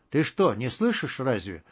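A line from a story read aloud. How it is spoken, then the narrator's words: Tearful whisper. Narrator (Russian): чуть не плача шептал Хиженков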